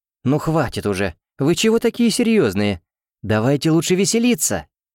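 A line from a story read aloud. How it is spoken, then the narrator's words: Joyful exclamation. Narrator (Russian): радостно воскликнула Леона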